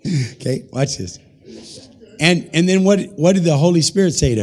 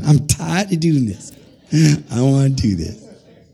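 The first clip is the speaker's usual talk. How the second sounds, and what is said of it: Imitates another person's voice. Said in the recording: “How do you like my Tamara impression?”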